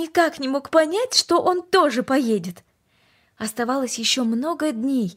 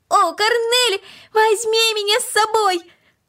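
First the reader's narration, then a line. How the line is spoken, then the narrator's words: Shouting ever louder. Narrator (Russian): Макс кричал все громче и громче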